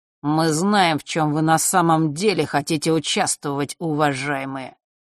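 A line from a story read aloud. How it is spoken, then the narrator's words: Cold. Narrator (Russian): холодно произнес ушастый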